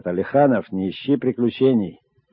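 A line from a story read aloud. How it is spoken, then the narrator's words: Shouting after someone. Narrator (Russian): кричал мне вслед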